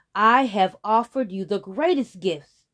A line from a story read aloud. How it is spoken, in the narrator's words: the sky roared